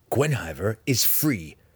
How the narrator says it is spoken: Drizzt growled

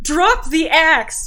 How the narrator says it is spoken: very loudly

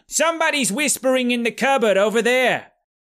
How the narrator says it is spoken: a demon immediately yelled

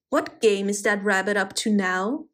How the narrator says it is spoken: growled the fox

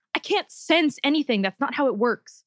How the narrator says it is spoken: snapped

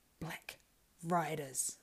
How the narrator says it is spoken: muttered Pippin

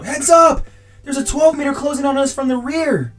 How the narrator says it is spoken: another elite soldier scream out

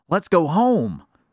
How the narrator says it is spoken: exclaimed Susie

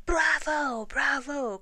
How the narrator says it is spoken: cried the mice

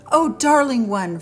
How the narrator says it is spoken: Fred cried with joy

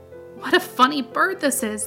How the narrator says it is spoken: they said, laughing

